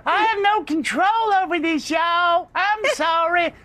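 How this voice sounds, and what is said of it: Cartoonish imitation of another person's voice. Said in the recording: “that voice ... It's the South Park Kim Paxton.”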